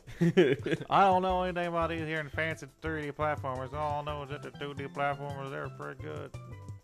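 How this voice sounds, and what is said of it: Put-on southern American accent. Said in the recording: “record an entire discourse in a southern accent”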